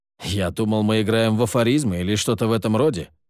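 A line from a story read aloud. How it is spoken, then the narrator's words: Snort. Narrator (Russian): фыркнул Нортон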